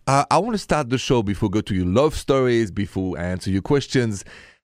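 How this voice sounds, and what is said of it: Thick French accent. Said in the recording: “this thick accent of mine is straight from Paris, France”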